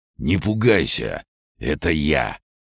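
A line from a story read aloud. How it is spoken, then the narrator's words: Hoarse voice. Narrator (Russian): услышала хриплый голос Асмодея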